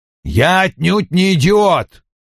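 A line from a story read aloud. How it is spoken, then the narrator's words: Barked. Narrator (Russian): рявкнул Вульф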